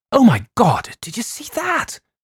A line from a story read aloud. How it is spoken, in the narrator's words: Andrea gasped